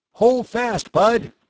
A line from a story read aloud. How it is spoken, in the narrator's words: Tom cried